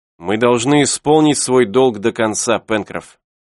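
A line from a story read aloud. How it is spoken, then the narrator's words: Plain. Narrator (Russian): ответил Сайрес Смит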